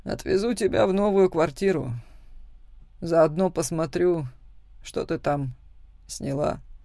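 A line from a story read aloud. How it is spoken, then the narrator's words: Tired, strained. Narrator (Russian): произносит устало, вымученно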